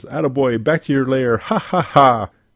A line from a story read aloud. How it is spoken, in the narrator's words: Plastic Man laughs and says